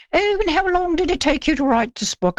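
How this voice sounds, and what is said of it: Imitates another person's voice, poor accent. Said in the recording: “forgive my terrible accent.”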